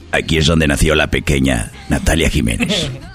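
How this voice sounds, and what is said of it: Put-on Spanish-from-Spain narrator voice. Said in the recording (Spanish): “hacer la voz como español para un documental”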